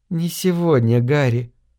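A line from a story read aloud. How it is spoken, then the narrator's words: Gentle, affectionate. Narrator (Russian): ласково сказала она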